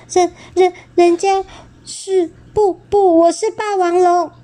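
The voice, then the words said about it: Thin, quiet, stammering voice. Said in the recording (Chinese): “你的声音怎么听起来这么细又这么小声”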